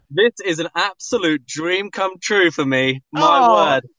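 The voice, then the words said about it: British accent. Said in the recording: “what a wonderful accent you have ... I love the accent. The accent is so adorable ... British accent”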